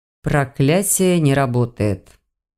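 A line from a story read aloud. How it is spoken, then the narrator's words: Flat even voice. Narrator (Russian): сообщил он до обидного ровным голосом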